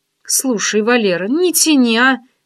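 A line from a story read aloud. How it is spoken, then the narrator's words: Pleading. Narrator (Russian): взмолилась я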